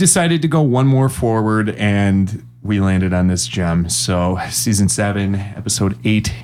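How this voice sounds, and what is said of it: Usual voice. Nothing is said of it.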